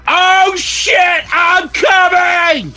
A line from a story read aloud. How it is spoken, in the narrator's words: He screamed